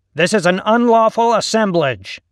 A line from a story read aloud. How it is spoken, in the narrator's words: the officer barked at the crowd through his face shield